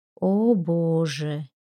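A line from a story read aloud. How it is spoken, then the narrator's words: Soft. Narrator (Russian): мягко сказала Анжелика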